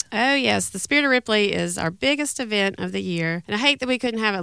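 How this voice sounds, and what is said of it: Voice sounds sick with a cold. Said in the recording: “you don't sound like you feel too good today. ... I've got a little bit of a cold.”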